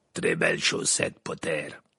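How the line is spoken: Growling. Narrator (French): grogna Maugrey

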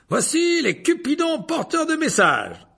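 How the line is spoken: Delighted announcement. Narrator (French): annonça Lockhart d'un ton réjoui

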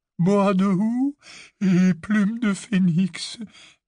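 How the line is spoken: Quavering voice. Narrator (French): dit Ollivander d'une voix chevrotante

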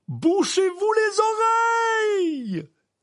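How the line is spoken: Shouting. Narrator (French): cria M

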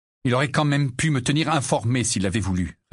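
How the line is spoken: Curt, dry reply. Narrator (French): répliqua sèchement Harry

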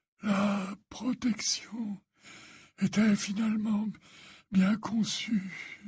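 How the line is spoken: Faint stammer. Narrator (French): balbutia Dumbledore d'une voix éteinte

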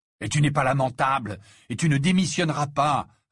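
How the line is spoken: Fierce retort. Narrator (French): répliqua Harry d'un ton féroce

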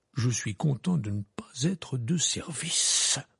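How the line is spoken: Muttering. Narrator (French): marmonna M

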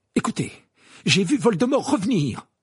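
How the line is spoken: Exclaimed. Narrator (French): s'écria Harry

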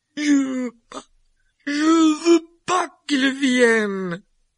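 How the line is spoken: Screaming with fake sobs. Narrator (French): hurla Dudley, une voix secouée de faux sanglots

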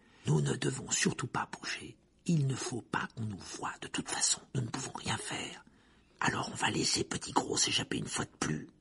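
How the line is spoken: Low voice. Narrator (French): dit Harry à voix basse

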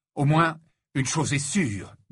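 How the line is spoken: Fierce declaration. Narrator (French): déclara-t-il d'un ton féroce

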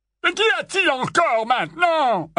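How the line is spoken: Barked. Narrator (French): aboya l'oncle Vernon

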